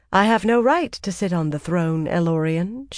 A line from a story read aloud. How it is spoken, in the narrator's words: she replied calmly